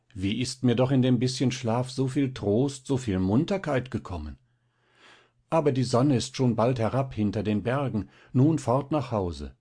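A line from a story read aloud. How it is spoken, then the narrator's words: Exclaiming. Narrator (German): rief sie aus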